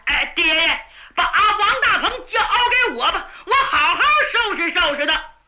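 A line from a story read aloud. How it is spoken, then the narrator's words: Shouting. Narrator (Chinese): 牛通就喊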